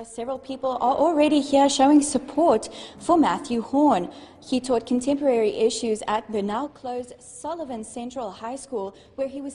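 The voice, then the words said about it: Cute accent. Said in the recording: “she's got a cute accent”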